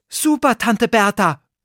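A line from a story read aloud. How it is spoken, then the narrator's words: Called out. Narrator (German): rief Oliver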